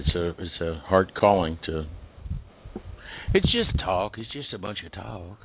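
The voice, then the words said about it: Texas accent. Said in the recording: “my Texas accent comes out when I say silly things like that”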